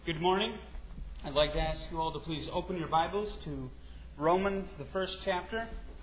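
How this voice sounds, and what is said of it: Wisconsin accent. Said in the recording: “I come from Wisconsin. You can tell from my accent.”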